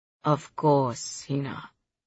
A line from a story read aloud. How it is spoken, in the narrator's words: my dad says softly, attempting again to soothe the flaring tempers